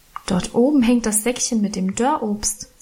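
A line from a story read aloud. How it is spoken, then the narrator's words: Plain. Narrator (German): sagte ich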